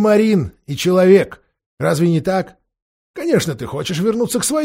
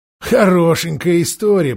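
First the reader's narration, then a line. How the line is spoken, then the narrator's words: Grumbling. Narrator (Russian): проворчал Никабрик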